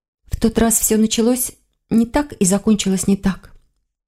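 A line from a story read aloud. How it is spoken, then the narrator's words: Quiet. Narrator (Russian): тихо сказала она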